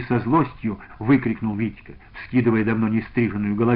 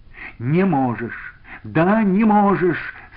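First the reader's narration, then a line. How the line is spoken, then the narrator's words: Desperate cry. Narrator (Russian): с отчаянием вскрикнул Витька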